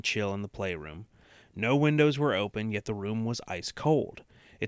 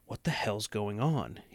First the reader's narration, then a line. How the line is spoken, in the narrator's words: muttered to himself